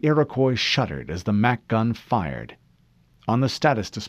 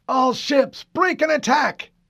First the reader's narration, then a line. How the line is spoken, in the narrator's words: Admiral Stanforth bellowed